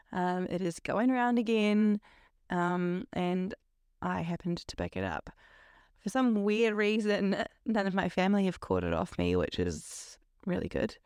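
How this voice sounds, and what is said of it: Voice sounds different from illness. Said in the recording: “my voice sounds a little different, and it is because I am recovering from COVID ... my voice is just going to sound like this until I am 100% better”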